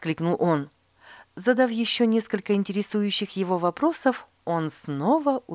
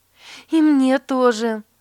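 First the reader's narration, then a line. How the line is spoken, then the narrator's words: Exclaiming. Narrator (Russian): воскликнула Катрина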